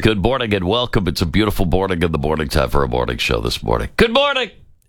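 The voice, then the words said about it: Top 40 radio DJ voice. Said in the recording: “me using my top 40 radio voice”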